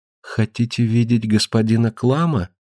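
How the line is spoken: Quiet. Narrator (Russian): тихо сказала

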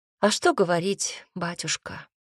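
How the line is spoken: Sighing. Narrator (Russian): вздохнул я

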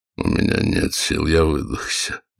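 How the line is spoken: Muttered. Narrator (Russian): пробормотал

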